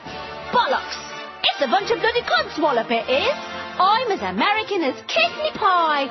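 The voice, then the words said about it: Fake British accent. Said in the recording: “a fake British accent”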